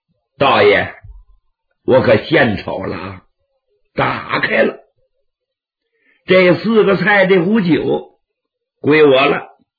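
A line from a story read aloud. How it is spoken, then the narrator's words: Old swordsman laughing heartily. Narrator (Chinese): 老剑客哈哈大笑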